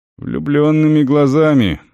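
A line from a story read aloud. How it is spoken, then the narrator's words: Warrior's grumble. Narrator (Russian): буркнул воин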